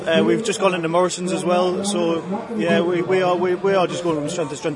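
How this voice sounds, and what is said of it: Slight north-east English accent. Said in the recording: “a slight Middlesbrough Teesside accent though? ... I am from Newcastle, yeah. ... A little bit further north though.”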